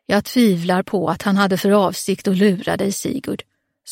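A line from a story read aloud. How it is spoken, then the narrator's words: Unsettlingly calm. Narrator (Swedish): sa oroväckande lugnt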